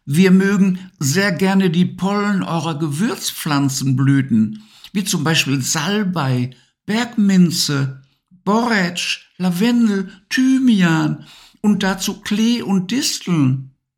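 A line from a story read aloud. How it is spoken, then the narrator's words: Laughing interjection. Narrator (German): mischte sich lachend ein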